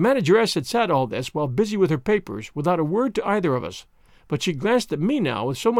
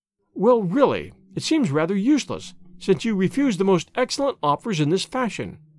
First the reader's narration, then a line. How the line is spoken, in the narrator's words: said she sharply